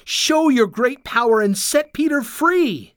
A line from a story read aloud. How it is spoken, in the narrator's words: they cried